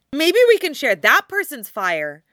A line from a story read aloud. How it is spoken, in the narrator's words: Naruto suggests cheerfully